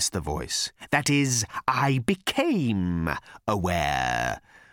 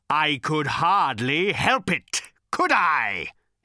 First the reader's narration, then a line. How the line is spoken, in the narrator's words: He bellowed